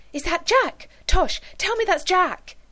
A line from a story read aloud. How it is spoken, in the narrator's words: the ex-policewoman exclaimed